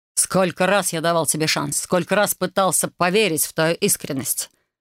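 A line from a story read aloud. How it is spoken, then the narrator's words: Desperate growl. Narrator (Russian): Рыкнул король в каком-то отчаянии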